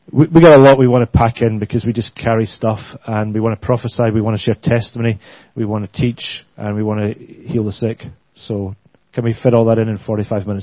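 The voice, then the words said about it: Glaswegian Scottish accent. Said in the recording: “I hope you can understand our accents. ... We're from Glasgow.”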